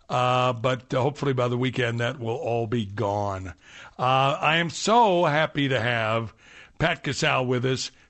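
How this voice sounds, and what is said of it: Slightly hoarse voice. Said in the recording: “Laryngitis. It got me. I'm just now getting it back. I'm about 80%... I may sound a little hoarse.”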